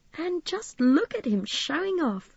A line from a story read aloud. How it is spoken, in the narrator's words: Midge chuckled